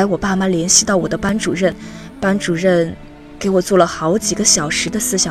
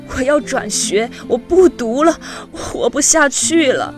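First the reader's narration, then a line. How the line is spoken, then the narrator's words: Sick, crying, hoarse, over phone. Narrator (Chinese): 我着凉生病了，我哭着用手机偷偷的给爸妈打了个电话，声嘶力竭地说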